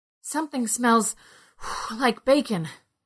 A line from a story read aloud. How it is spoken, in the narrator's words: Ned said between gasps